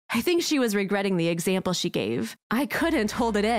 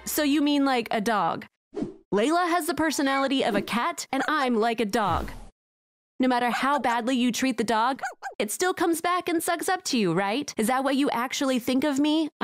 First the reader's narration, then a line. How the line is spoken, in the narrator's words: I asked